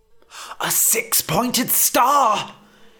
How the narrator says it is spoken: He realised he was shouting, so he brought his voice down to a whisper

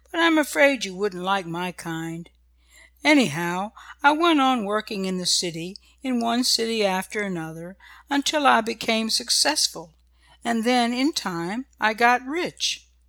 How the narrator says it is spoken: said the old man kindly

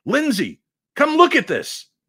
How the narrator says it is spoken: shouting

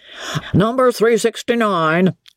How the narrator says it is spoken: roared Mr

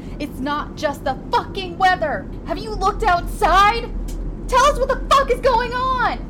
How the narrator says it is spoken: A man screamed

